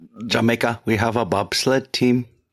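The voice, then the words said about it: Put-on Asian accent. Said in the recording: “That was like an Asian accent.”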